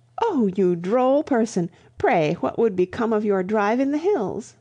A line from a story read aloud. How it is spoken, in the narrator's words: laughing over the unpractical suggestion